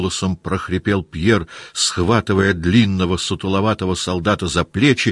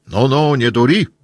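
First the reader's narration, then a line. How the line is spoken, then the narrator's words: Shouted. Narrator (Russian): крикнул он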